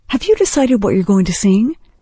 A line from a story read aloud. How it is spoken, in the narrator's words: Heather giggled